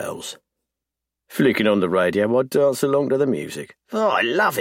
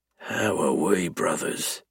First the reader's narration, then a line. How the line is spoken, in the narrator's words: He mutters